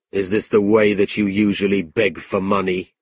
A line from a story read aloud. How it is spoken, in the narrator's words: Ralph coldly replied